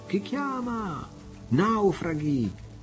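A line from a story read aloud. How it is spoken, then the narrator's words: Distant shout offshore. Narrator (Italian): si udì al largo una voce che gridava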